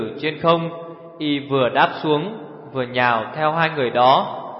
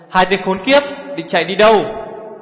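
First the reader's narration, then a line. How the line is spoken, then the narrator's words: Shout. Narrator (Vietnamese): Hổ Thiết Hoa hét lên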